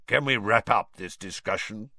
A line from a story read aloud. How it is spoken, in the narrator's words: growled Moody